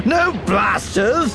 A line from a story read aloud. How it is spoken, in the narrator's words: Sheb shouted